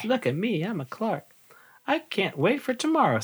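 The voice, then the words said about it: Character voice for Clark the Shark. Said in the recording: “I'm going to do the voice for Clark the Shark”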